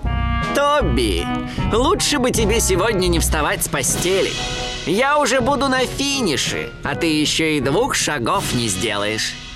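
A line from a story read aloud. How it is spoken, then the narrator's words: Laughing. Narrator (Russian): Макс Заяц тоже засмеялся и сказал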